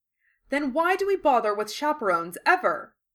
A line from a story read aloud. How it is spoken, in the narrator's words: McGonagall said, tempted to shriek it